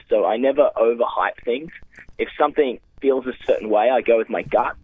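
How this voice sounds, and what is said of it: Australian accent. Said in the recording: “the voice helps ... People love an Australian accent”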